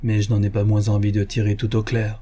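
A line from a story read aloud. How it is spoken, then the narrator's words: Low, muffled voice. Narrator (French): dit-il d'une voix sourde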